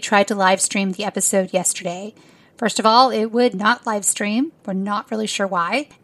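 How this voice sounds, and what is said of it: Hoarse voice. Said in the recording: “I'm so hoarse ... sick for 6 weeks with this viral infection ... I'm super hoarse”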